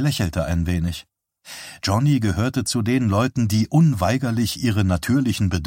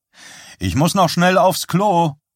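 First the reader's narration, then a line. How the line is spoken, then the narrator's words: Calling out. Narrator (German): rief zu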